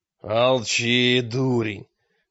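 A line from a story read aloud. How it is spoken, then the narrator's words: Growled, almost wolf-like. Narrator (Russian): прорычал, почти путая слова и волчий рык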